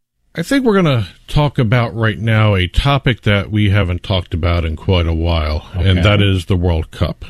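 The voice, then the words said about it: Sarcastic tone. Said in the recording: “As you can tell, I'm being sarcastic with that statement.”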